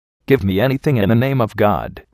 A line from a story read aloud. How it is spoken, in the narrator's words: replied the Jogi